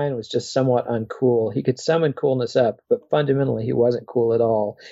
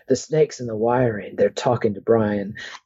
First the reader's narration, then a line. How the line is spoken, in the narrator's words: followed by gales of laughter